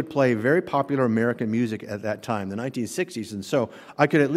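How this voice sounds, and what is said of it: Usual voice. Nothing is said of it.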